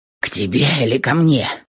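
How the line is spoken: Hoarse rasp. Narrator (Russian): Прохрипел

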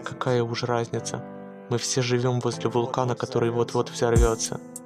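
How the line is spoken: Whisper. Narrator (Russian): Я шепотом сказал ей

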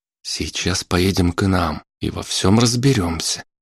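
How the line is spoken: Quiet young man. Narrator (Russian): тихо ответил парень

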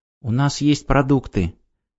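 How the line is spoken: Quiet, younger speaker. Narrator (Russian): тихо сказал младший

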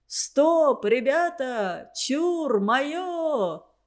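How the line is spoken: Cheerful shout, young man. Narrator (Russian): весело крикнул молодой урядник

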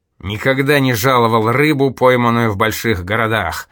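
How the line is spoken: Grumbled. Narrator (Russian): пробурчал он

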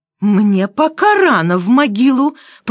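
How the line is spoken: Through gritted teeth. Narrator (Russian): процедила сквозь зубы маменька

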